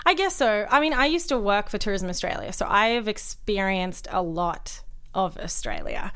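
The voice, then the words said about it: Australian Melbourne accent. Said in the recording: “my accent, the Melbourneian accent, I guess, is different to like the Sydney accent or the Queensland accent. And it's a little bit more open”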